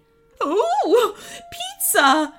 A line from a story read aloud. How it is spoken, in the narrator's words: squealed the Goblin Queen